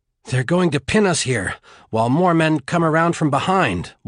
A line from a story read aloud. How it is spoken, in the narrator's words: Juan panted, his heart pounding in his chest